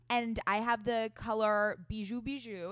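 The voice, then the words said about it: Put-on fancy brand-name pronunciation. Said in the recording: “I love all your like accents right now ... I, am trying to get on brand with the Glossier pronunciation”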